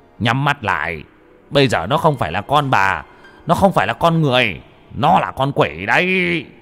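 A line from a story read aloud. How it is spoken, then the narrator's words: Shouting sharply. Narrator (Vietnamese): Ông Mo quát lên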